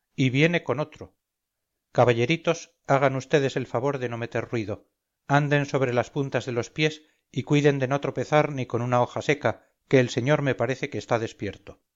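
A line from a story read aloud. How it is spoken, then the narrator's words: Growling speech. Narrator (Spanish): dijo gruñendo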